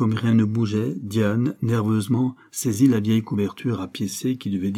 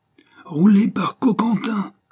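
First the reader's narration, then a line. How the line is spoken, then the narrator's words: Furious cry. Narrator (French): s'écria la Monti, pâle de fureur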